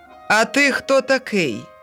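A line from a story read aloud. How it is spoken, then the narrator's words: Landowner shouting. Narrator (Ukrainian): дідич крикнув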